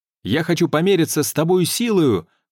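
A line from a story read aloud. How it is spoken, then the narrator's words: Shouted reply. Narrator (Russian): крикнул в ответ Ланселот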